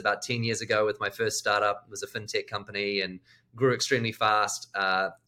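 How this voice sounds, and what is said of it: New Zealand accent. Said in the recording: “I've got a strange accent. ... Where's the accent from? ... is it Australia, New Zealand? ... It's New Zealand.”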